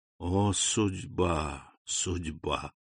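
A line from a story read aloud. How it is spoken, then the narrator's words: Whispered, abbot. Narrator (Russian): прошептал аббат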